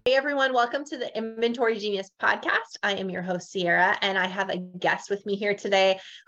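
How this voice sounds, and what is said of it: Northern Canadian accent. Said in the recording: “I have a very Northern Canadian type accent”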